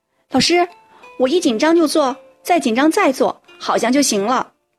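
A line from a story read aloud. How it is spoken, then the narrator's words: Exaggerated cry. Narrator (Chinese): 小雨夸张的叫起来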